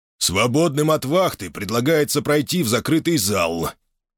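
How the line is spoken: Deep bass voice. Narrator (Russian): пробасила голова

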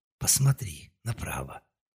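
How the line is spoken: Barely audible whisper. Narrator (Russian): раздался едва слышный шепот

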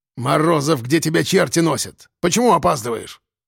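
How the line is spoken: Angry bark. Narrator (Russian): рявкнул Кулебякин

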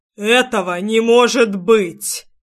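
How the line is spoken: Roaring dragon. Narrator (Russian): проревел рыжеволосый дракон

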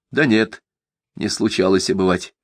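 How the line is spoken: Plain. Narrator (Russian): ответил смотритель

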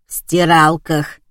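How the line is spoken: Hoarse voice through device. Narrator (Russian): прохрипела из прибора

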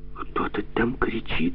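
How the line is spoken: Frightened whisper. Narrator (Russian): с тихим испугом прошептала Машка

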